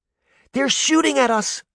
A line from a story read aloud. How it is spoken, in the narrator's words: Daphne exclaimed